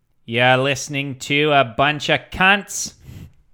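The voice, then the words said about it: Put-on Australian accent. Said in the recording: “Do it in an accent. ... Should I do Vernon Australian?”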